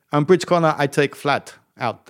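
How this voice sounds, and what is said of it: Put-on German accent. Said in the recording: “That's my German accent, by the way”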